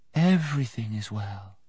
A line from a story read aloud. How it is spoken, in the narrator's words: she said in her soft, clear voice